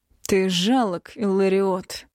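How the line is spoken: Emperor hissing through teeth. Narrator (Russian): процедил император

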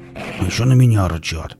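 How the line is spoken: Mutter. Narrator (Russian): пробормотал Велес

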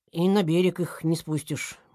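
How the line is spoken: Said sadly. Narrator (Russian): грустно сказал он

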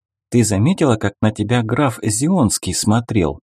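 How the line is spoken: Plain question. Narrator (Russian): спросила Эрна

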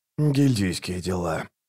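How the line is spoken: Grumbled. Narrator (Russian): буркнул Раллик

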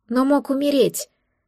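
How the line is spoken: Frightened hiccup. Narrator (Russian): испуганно икнула я

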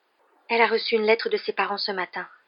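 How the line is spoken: Murmuring. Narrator (French): murmura Parvati

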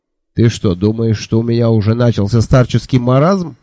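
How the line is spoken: Angry snort. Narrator (Russian): сердито фыркнул Джуфин

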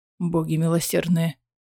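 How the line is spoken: Muttered. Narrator (Russian): пробормотал Эдион

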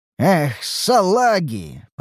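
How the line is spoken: Grumble. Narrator (Russian): пробурчал я

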